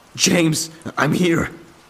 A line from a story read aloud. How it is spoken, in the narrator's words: I shouted